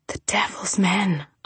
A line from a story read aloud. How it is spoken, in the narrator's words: I whispered